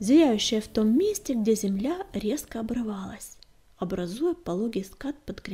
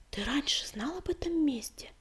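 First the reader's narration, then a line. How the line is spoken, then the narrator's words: Whisper. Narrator (Russian): прошептала песчаная буря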